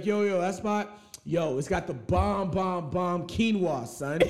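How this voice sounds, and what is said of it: Thuggish New York accent. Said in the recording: “a thuggish New York accent”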